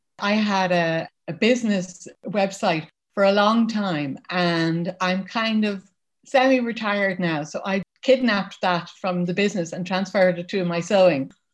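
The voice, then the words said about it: Irish Dublin accent. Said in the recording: “Now that people have heard your accent ... I live in Ireland. I'm from Dublin”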